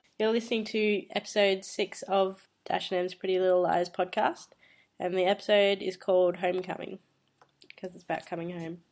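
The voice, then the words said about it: Husky, sick-sounding voice. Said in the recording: “she is sick ... hot and husky”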